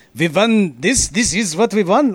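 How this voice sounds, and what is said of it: Attempted Italian accent, sounds French. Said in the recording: “Wait, that's not Italian... Was that French?... Accent”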